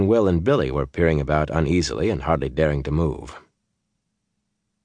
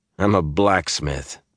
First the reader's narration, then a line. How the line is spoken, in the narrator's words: Perrin laughed